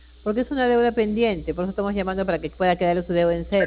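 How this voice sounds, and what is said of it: Foreign accent in Spanish. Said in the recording (Spanish): “¿De dónde llama usted, extranjera? ... Por su acento”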